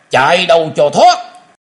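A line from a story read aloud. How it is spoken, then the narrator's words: Shouted. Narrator (Vietnamese): Tiếu Quân đã hét lên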